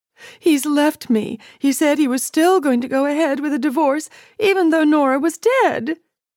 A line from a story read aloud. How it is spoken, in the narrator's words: Titania wailed